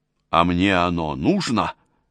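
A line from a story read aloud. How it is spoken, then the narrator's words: Angry question. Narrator (Russian): зло спросил принц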